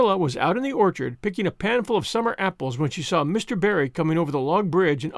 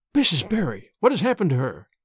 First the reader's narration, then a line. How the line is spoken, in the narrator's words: she gasped, more white and shaken than the self-contained, sensible Marilla had been for many years